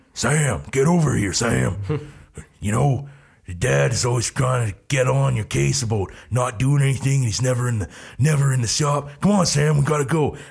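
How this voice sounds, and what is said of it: Imitates another person's voice, poorly. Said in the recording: “That was my just on-spot Dean Winchester ... Jensen Ackles. And yeah, that was pretty bad ... that terrible Jensen Ackles impression”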